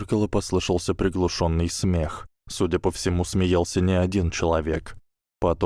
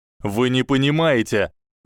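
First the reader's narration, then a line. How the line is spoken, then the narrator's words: Shouting out. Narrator (Russian): выкрикнул Аврор Алтунай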